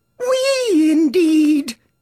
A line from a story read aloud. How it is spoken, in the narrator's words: cried the mouse, who was trembling down to the end of his tail